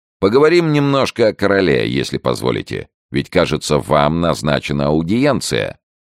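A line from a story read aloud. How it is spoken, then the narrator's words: Cheerful. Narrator (Russian): весело сказал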